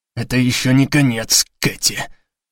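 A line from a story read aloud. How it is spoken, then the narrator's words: Hiss. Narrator (Russian): прошипел Леви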